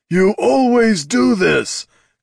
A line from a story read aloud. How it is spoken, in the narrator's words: growled Darek, trying to contain his growing fury